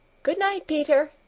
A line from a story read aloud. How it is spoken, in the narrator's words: called out Clara in a friendly voice